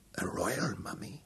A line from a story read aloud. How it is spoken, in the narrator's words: sweat beaded upon his forehead, and his voice was hoarse and chesty as he asked